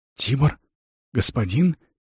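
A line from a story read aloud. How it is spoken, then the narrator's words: Incredulous, astonished whisper. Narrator (Russian): с недоверчивым изумлением прошептал Рикард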